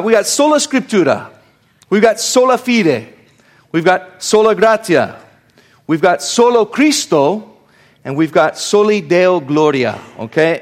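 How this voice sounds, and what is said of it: Put-on Italian accent on Latin phrases. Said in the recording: “I have to say these with a Latin accent ... since I have that accent, though, very, very good ... I'm going to say these with an Italian.”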